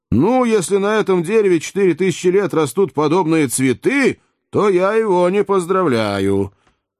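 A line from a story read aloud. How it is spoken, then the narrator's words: Shouting. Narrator (Russian): При виде его Джо закричал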